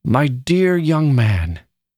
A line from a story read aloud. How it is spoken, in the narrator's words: he exclaimed